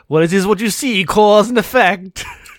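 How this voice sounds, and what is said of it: Exaggerated French accent. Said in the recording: “He's doing ridiculous French accent the whole time.”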